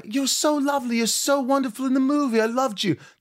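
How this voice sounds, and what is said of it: Imitated English accent of another person. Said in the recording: “Terrible English accent ... It was actually not bad ... If I closed my eyes, I would have started talking to Helena.”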